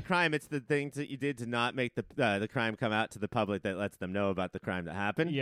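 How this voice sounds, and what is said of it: Usual voice. Nothing is said of it.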